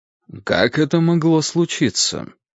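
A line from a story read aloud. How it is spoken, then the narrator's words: Dry. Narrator (Russian): сухо сказал Гурский Кимычу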